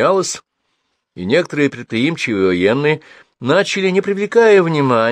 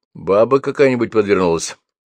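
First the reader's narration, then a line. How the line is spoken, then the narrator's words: Snorting grunt. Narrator (Russian): хмыкнул Гордей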